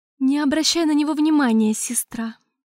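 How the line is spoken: Weary. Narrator (Russian): устало сказала Аурелиэль

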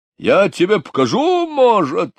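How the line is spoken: Shouted, jumping up. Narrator (Russian): закричал Булросс, вскакивая со стула

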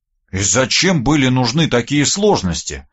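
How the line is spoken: Sighing. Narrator (Russian): вздохнул я

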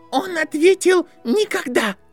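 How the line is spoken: Shouted. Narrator (Russian): крикнула Шарлотта Виланд

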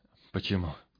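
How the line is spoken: Strained, forced words. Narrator (Russian): выдавил из себя Пыш

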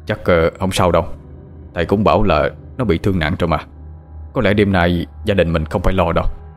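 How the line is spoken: Quiet, half to himself. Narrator (Vietnamese): Ông Khanh nhỏ giọng như vừa trả lời với bà Chi, vừa tự nói với chính bản thân mình

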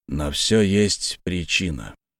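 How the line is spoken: Quiet. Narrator (Russian): говорит тихо

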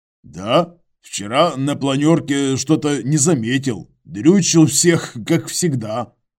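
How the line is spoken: Smirking grunt. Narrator (Russian): хмыкнул Иваныч

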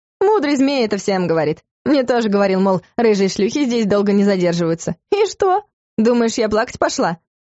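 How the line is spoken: Amused laughing. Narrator (Russian): Элла рассмеялась, как будто вспомнила нечто весьма забавное

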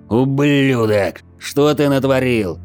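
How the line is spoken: Furious roar. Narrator (Russian): Яростно взревел я

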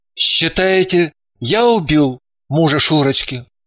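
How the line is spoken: Dejected male question. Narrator (Russian): спросил он упавшим голосом

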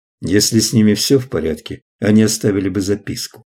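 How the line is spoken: Plain. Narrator (Russian): ответил Клай

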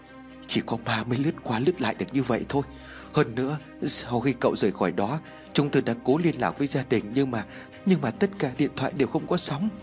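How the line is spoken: Frightened voice. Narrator (Vietnamese): Một người khác cũng rất sợ hãi

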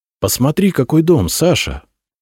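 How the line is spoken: Joyful. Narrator (Russian): радостно сказал он

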